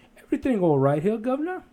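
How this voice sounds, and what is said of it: Put-on British accent. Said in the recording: “speaks in a British accent ... that's my British accent”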